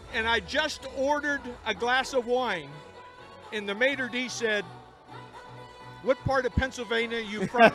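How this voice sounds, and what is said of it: Pittsburgh accent. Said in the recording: “Do you hear his Pittsburgh accent? ... It never leaves you ... It's phenomenal.”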